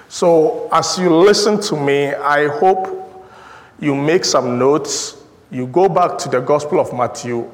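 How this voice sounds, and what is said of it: Thick foreign accent. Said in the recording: “It is thick, maybe like my accent.”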